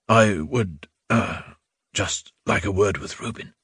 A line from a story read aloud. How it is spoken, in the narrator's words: whispered